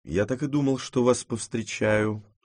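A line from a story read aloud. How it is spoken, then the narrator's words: Plain. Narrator (Russian): сказал он мне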